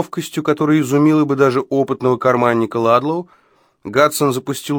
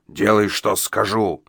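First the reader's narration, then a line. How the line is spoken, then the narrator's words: Growling. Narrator (Russian): прорычал он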